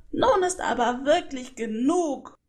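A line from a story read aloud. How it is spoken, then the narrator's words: Deeply angry call. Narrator (German): rief sie zutiefst verärgert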